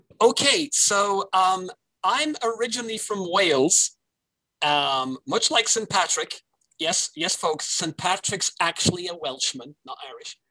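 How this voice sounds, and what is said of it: Welsh accent. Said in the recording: “I love your accent. I think it's so beautiful.”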